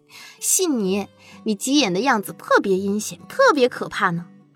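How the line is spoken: Teasing. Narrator (Chinese): 陶如雪调笑道

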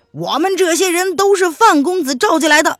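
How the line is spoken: Shout from crowd. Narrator (Chinese): 下面立即有人喊道

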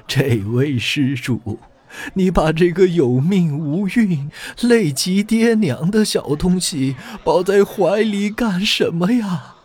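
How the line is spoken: Crying monk. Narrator (Chinese): 和尚 一边哭一边对着甄士隐说

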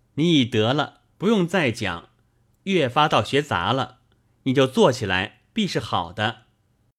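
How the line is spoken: Said laughing heartily. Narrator (Chinese): 宝玉大笑道

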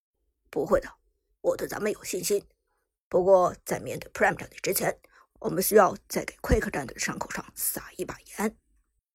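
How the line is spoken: Deep, low voice. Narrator (Chinese): Mike 沉声说道

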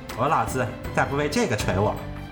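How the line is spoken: Laughing. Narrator (Chinese): 宝玉笑道

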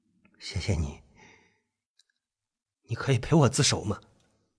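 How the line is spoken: Sympathetic. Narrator (Chinese): 金卡充满同情的说

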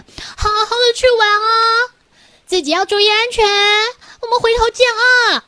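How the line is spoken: Loud shouting. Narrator (Chinese): 大声的喊着

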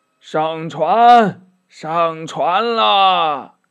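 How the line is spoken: Old man calling out. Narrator (Chinese): 一个老者叫道

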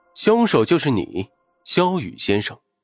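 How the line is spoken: Soft voice. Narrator (Chinese): 轻声地说

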